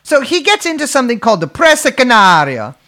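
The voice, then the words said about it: Put-on Italian accent. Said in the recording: “the Italian accent”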